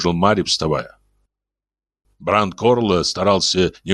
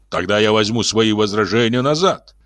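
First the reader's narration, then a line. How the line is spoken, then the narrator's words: Quick reply. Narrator (Russian): быстро ответил председатель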